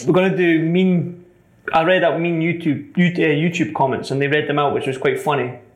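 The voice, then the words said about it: Scottish accent. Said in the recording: “everything negative about me is about my accent, being Scottish”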